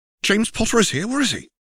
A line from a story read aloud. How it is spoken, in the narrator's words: said Harry excitedly